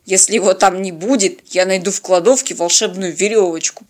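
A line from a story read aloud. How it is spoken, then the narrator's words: Grumbling. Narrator (Russian): проворчал капитан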